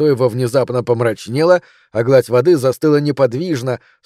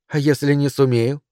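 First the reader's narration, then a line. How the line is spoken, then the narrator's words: Even-toned question. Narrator (Russian): ровным голосом спросила я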